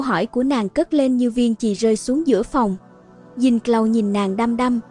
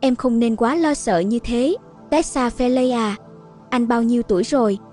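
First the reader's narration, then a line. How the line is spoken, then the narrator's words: Warm, teasing. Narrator (Vietnamese): Chàng nói bằng giọng ấm áp, có vẻ cười cợt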